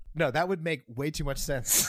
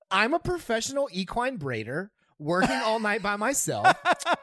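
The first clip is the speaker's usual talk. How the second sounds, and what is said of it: High-pitched Valley Girl voice. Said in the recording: “in a Valley Girl voice ... High pitched.”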